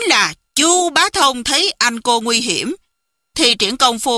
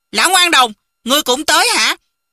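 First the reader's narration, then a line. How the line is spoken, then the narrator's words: Angry speech. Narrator (Vietnamese): Cừu Thiên Nhận tức giận nói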